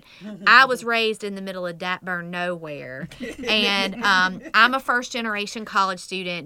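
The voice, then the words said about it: American country accent. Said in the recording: “y'all can probably tell from my country accent”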